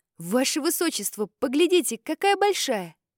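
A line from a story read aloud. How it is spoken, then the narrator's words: Exclaiming. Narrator (Russian): воскликнул Муам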